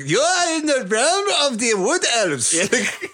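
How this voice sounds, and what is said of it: Eastern European accent, cartoon character voice. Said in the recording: “the Eastern European accent ... that's just Burgermeister Meisterburger from fucking Santa Claus”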